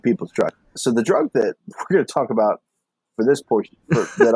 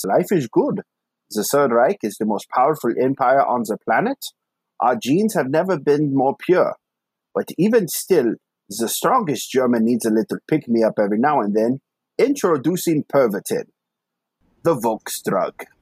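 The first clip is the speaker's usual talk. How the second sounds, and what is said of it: Put-on German accent. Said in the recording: “I really liked your German accent”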